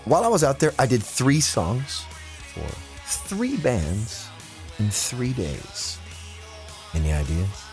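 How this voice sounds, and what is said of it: Hoarse, shredded voice. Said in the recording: “My voice is shredded, as I'm sure you can tell.”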